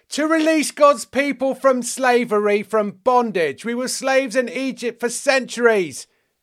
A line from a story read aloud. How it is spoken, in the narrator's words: yelled the Jews